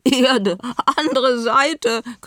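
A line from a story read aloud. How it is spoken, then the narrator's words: Shrieking. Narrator (German): kreischten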